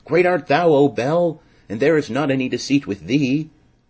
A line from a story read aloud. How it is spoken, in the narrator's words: the king cried out with a loud voice